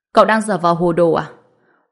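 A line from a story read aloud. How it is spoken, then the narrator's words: Cold female voice. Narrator (Vietnamese): Cô gái lạnh lùng nói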